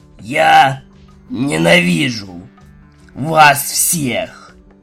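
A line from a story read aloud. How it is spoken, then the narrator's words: Forced out, sulky little filly. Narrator (Russian): Выдавила из себя прелестно нахмурившаяся жеребенок-малышка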